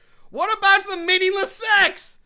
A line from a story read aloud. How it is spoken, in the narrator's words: shouts after her